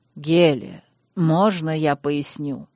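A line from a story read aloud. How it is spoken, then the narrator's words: Gentle inquiry. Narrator (Russian): мягко осведомился у нее Вайрос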